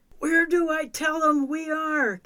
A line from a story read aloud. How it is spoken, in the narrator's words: Kevin yelled